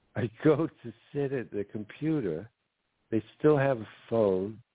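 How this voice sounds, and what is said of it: Put-on Jude Law English accent. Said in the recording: “I'm losing my Jude Law accent right now.”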